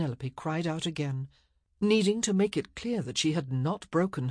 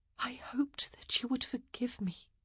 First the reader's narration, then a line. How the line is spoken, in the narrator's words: she whispered